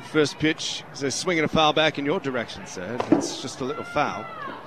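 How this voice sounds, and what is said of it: Put-on English accent. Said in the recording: “ready to do this fifth inning in an English accent ... I'm going to do my best to keep up the English accent. As annoying as it might be, I apologize.”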